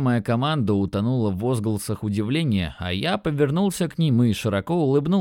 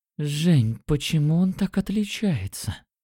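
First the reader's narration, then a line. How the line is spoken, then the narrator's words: Breathless with delight. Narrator (Russian): Выдохнула Катя, ее глаза блестели от восторга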